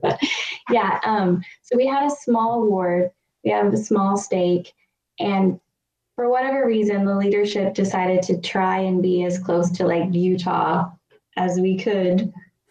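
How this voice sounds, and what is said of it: California accent. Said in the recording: “as you couldn't tell from my annoying California accent,... with how much I say like or whatever”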